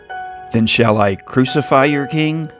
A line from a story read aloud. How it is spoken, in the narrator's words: said Pilate